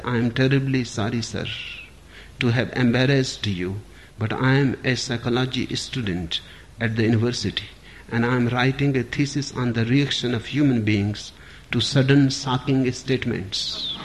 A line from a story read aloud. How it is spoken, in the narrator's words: In a quiet voice, he said